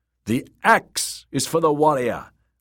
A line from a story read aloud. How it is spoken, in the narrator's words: Rus shouted back